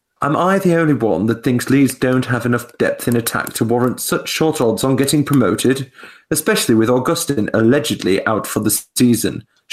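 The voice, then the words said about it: Put-on posh accent. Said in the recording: “Do a posh accent for Fulham.”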